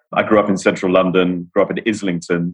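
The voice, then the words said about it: British London accent. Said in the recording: “I'm the Brit on the team ... managed to cling desperately onto the Brit accent.”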